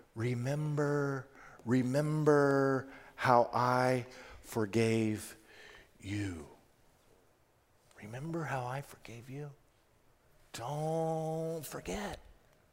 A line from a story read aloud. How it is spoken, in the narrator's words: God is whispering to us